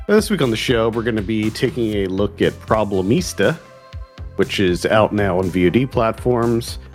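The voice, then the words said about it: Slightly congested voice from a cold. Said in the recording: “I have a little bit of a cold ... just a little cold”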